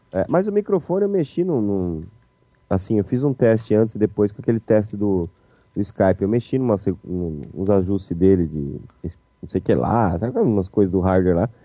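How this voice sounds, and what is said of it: Deep, congested blocked-nose voice. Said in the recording (Portuguese): “muito da, da minha voz tá grave também é porque o nariz tá totalmente tampado”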